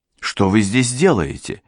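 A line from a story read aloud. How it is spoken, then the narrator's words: Hostess asking sharply. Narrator (Russian): резко спросила у него хозяйка дома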